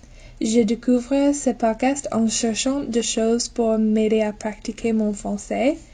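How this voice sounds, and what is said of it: American accent speaking French. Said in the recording (French): “je viens des États-Unis ... J'espère que tout le monde pourrait comprendre malgré mon accent.”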